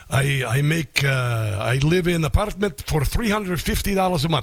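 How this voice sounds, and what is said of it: Imitated Baltic accent. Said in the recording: “he is from one of the Baltic countries ... I won't do his accent anymore.”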